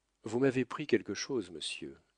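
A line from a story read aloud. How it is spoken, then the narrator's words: Plain. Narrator (French): dit Camusot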